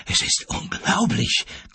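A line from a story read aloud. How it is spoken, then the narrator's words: Gasping, unheard. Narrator (German): keuchte er, aber keiner hörte ihn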